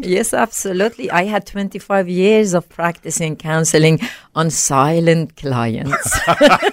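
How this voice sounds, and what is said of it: Slight foreign accent. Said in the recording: “listeners can hear a little accent there”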